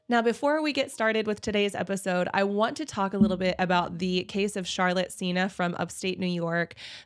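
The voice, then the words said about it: Congested nasal voice with vocal fry. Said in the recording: “all of my nasal congestion and vocal fry”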